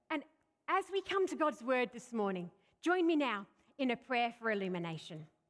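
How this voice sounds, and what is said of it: Australian accent with English influence. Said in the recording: “I'm an Aussie. I'm an Australian by birth. But there's also a lot of English mixed up in my accent ... my funny accent”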